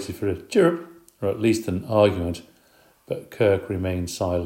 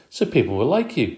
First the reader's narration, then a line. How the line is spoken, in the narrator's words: the teacher asked